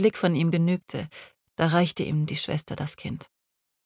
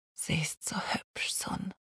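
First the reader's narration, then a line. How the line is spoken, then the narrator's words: Repeated whisper. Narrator (German): flüsterte er immer wieder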